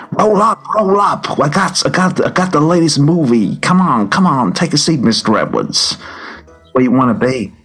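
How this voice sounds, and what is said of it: Put-on New York accent. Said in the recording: “of a New York kind of accent”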